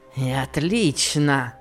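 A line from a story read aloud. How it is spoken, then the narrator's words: Grumbled with savage grin. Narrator (Russian): проворчал он, зверски усмехаясь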